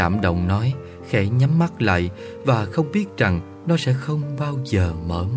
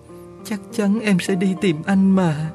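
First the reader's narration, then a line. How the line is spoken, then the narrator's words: Sobbing. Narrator (Vietnamese): nức nở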